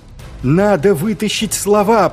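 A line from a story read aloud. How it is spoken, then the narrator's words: Shouted. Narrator (Russian): прокричал Маркоу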